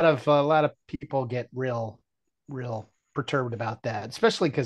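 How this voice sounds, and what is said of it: Usual voice. Nothing is said of it.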